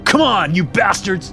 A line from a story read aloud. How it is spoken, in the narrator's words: I shout